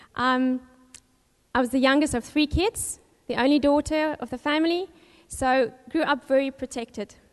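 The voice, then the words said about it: South African accent. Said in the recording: “I was born in Cape Town, South Africa, as you can hear from the accent”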